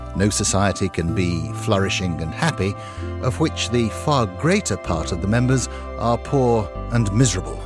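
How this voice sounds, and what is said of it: British accent, narrating. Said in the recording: “The beautifully narrated British accent that you hear there ... Which is, by the way, how he actually talks ... it's not a put on. He just sounds like that”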